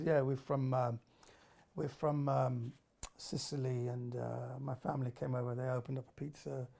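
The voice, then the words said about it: Slight Italian accent. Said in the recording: “I would speak with a slight Italian accent.”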